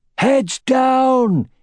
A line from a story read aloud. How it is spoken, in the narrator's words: he roared